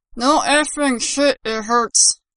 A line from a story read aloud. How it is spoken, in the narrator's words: Bakuda growled